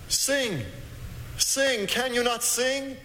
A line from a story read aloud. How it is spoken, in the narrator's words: he cried